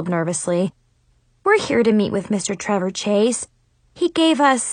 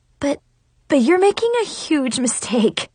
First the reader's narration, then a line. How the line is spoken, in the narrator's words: I sputtered